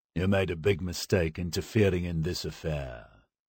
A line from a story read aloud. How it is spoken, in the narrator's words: the Kosyain said coldly